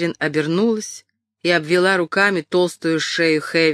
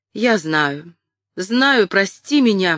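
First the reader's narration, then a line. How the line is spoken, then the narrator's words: Exclaiming. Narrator (Russian): воскликнула она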